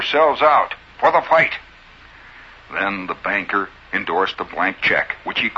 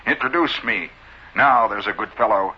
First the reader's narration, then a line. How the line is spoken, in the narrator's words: he said